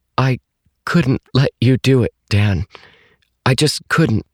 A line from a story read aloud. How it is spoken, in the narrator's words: She said in a halting voice